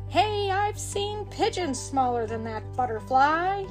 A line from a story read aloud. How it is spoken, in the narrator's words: he exclaimed